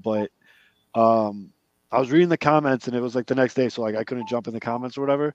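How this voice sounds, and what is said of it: Rough, sick-sounding voice. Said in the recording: “I'm sick this week. That's why my voice is kind of brutal.”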